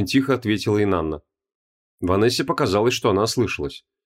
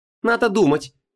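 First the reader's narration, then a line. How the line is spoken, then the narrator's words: Venomous snort. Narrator (Russian): ядовито фыркнула Ванесса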